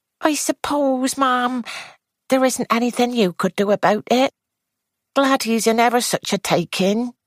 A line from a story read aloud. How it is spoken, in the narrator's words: Edna said wistfully